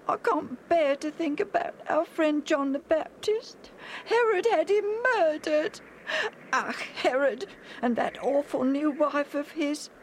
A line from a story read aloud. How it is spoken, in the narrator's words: Alf said sadly